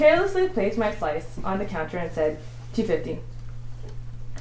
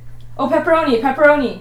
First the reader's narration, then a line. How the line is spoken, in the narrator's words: I immediately exclaimed with certainty